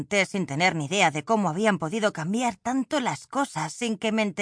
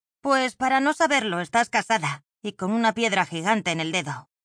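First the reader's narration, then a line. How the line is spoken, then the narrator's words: Grumbling. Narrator (Spanish): rezongué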